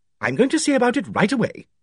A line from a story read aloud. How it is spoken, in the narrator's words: Dane Calthrop said in a quick, confident tone